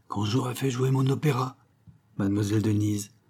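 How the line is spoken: Weak, dreamy murmur. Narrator (French): murmurait-il, son éternelle chimère se changeant sous l'empire de l'affaiblissement passager, en une sorte de divagation douce

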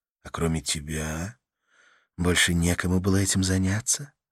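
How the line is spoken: Soft question. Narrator (Russian): мягко спросила Карла

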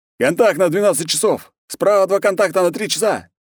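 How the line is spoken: Soldiers shouting. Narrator (Russian): закричали спецназовцы

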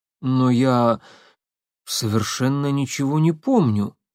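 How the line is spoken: Confused. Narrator (Russian): растерянно произнес Легостаев

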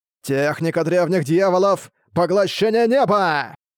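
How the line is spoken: Shouting. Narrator (Russian): Вновь закричал Тадзя

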